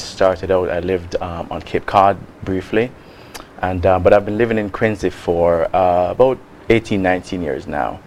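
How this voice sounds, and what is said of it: Jamaican accent. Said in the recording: “as you can probably tell from my accent, I'm not from the United States. I'm from Jamaica.”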